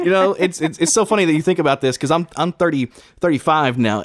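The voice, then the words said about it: Slight Southern Kentucky drawl. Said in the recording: “I'm from Kentucky. So that's where that little southern drawl comes from sometimes ... even though I kind of work on getting rid of that accent.”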